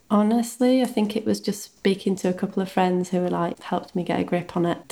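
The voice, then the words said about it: Northern English accent. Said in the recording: “the only one with a northern accent”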